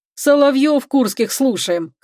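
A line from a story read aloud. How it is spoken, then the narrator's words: Chuckling. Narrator (Russian): хохотнул Гарик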